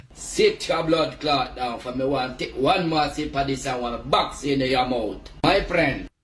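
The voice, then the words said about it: Jamaican accent. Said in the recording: “That's got to be Jamaica, right? ... The Jamaican accents, when they get going, impossible.”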